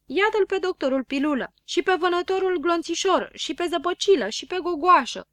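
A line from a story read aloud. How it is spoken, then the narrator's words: Many voices exclaiming. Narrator (Romanian): porniră exclamații din toate părțile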